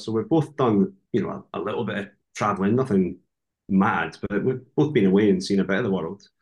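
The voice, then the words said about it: Scottish accent. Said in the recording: “what a beautiful accent you've got. ... Talk about the Scottish accent.”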